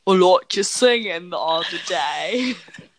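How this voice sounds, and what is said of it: Put-on British accent. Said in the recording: “I have the best British accent this side of the Mississippi.”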